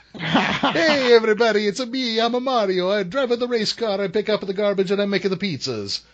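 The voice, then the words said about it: Exaggerated stereotypical Italian accent. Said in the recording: “I had him doing the most racist Italian accent... It was so bad.”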